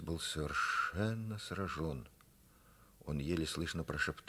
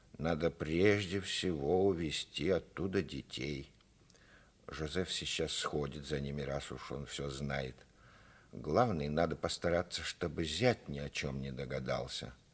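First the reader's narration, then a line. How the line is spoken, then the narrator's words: Resolute mother's voice. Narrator (Russian): Мать решительным тоном заявила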